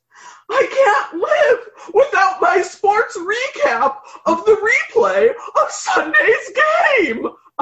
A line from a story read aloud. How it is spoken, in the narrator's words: a hysterical man screamed